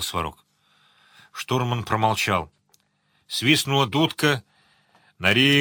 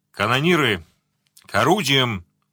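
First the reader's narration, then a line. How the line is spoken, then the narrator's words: Booming through a megaphone. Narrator (Russian): прогремел с мостика усиленный рупором голос капитана Зо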